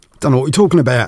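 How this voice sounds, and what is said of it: Put-on London accent. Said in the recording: “a bit of a London twang ... possibly not quite in that accent”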